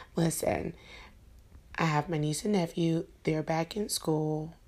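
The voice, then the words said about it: Tired-sounding voice. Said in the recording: “the sound of my voice... the tiredness in my voice”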